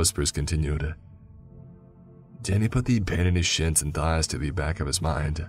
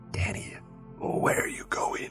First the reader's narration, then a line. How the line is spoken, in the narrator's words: the voice hissed